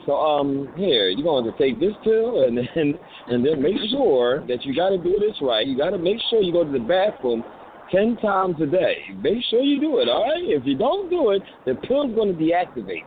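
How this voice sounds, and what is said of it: Mock doctor giving patient instructions. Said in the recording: “You sound like one of them doctors, like you in a hospital ... You sound like a doctor when you talk.”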